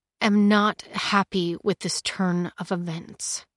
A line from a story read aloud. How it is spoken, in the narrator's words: he began, speaking slowly